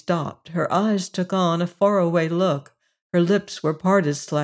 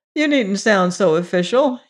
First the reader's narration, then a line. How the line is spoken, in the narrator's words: he laughed